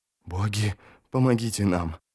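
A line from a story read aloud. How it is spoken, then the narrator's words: Fearful whisper. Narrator (Russian): прошептал Ярви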